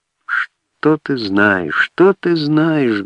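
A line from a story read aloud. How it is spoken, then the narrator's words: Sad question. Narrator (Russian): грустно вопросил Гурьянов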